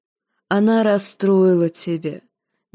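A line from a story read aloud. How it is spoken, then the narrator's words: Soft queenly voice. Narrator (Russian): мягко проговорила королева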